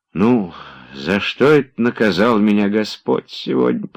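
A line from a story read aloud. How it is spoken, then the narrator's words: Heavy-sighing whisper. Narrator (Russian): прошептал Захар, вздохнув так, что у него приподнялись даже плечи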